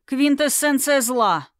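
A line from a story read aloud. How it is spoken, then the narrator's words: Prince growling. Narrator (Russian): рыкнул князь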